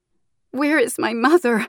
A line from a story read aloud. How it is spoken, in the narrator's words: Anquin sobbed